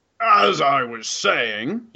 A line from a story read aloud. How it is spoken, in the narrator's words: he growls